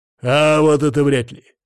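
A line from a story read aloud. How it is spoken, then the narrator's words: Booming voice from behind. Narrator (Russian): прогремел голос Коваля за моей спиной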